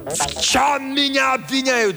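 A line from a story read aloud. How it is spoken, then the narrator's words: Shouting. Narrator (Russian): закричал Джомфри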